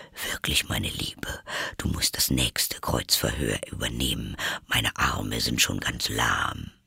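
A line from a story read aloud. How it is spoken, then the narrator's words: Quiet aside. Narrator (German): fügte er leise hinzu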